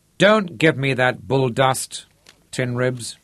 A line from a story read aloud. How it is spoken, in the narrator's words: said Johnny Delange